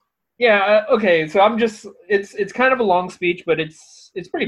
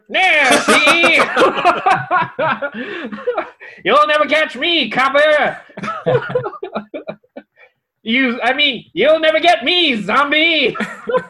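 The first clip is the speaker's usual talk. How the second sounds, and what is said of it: 1920s Chicago gangster voice. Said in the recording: “Is he going to sound like a 1920s Chicago gangster?”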